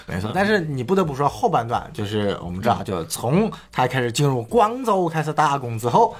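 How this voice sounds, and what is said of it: Put-on muddled regional Chinese accent. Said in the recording (Chinese): “你这个什么口音？...上海人咋地啊？...你这个上海人啊，那个上海口音...你这哪口音啊？你这广东、山东分不清啊？”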